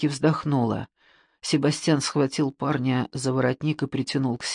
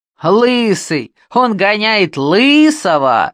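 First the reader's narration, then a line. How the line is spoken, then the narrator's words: Loud guffawing teenager. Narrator (Russian): громко заржал подросток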